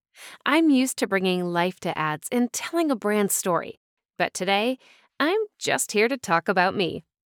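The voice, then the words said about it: Warm General American accent. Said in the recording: “My voice can be described as warm, comforting, and inviting ... my main accent being General American or Midwestern”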